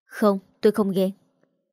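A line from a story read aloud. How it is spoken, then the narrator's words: Hesitant, halting speech. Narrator (Vietnamese): Đôi môi ngập ngừng mãi mới nói thành câu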